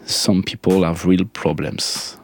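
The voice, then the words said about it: French-accented English singing. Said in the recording (French): “Pardon mon accent”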